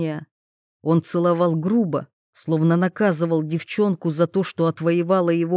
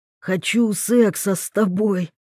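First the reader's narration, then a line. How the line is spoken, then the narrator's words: Hoarse, near-moan, muffled. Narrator (Russian): хрипло почти простонал, на мгновение зарывшись лицом в шею девчонки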